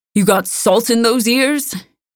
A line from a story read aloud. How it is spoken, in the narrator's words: Gordu bellowed